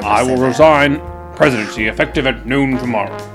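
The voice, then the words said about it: Richard Nixon impression. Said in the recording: “Nixon ... I do a really good Nixon ... I thought I was talking to the ghost of Richard Nixon”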